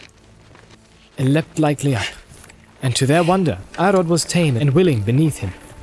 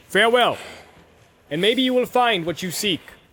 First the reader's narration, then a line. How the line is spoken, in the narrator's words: cried Eomer